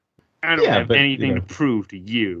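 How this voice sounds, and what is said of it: Impression of Captain Marvel's voice. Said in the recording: “do your Captain Marvel impression ... it sounds just like her”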